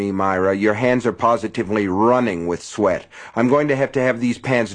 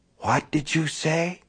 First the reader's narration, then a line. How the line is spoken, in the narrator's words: She whispered